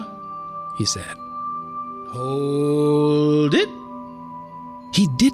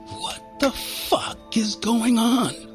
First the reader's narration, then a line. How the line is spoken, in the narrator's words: I whispered angrily